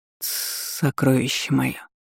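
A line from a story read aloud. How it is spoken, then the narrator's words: Hoarse dragon whisper. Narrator (Russian): Хриплый шепот дракона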